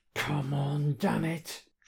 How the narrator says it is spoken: Dredd mutters through gritted teeth

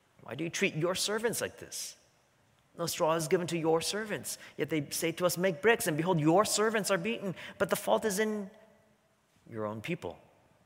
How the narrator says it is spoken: the foremen of the people of Israel came and cried to Pharaoh

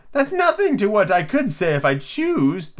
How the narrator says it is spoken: the Duchess replied in a pleased tone

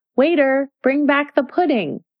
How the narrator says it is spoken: she called out

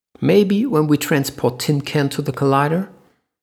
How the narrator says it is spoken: Sina said

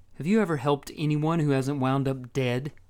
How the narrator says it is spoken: she asked bitterly

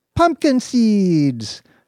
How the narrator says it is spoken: said Hugo and Tara at the same time, laughing

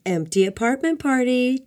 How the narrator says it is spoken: Domingo Domingo shouted

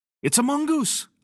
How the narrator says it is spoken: cried

